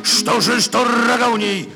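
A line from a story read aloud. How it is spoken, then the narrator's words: Loving shout. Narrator (Russian): кричал жираф любовно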